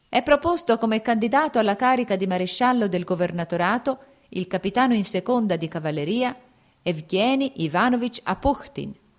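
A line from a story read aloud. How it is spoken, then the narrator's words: Shrill loud proclamation. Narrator (Italian): un uomo in divisa e con voce stridula e alta proclamava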